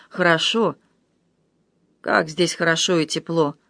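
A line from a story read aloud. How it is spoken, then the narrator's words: Mumbling. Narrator (Russian): Мартин бормотал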